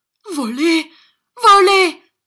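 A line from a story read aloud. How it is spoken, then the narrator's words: Shouted. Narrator (French): cria Gride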